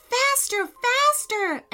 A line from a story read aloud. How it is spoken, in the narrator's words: Amelia cried